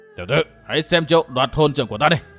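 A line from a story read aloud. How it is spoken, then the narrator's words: Roaring. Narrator (Vietnamese): Lão hổ pháp gầm lên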